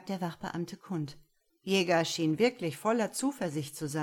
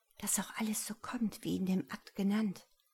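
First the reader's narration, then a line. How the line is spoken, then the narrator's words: Barely audible whisper. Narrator (German): flüsterte Clarissa beinahe unhörbar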